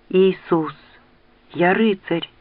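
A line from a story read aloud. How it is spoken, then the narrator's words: Mutter. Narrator (Russian): пробормотал Кейт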